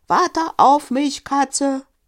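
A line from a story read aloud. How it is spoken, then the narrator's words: Called loudly. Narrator (German): rief laut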